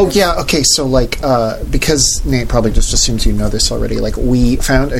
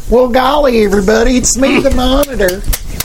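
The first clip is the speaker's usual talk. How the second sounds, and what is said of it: Put-on southern accent. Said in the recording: “I speak in a southern accent ... your accent work is just... Yeah. Unreal.”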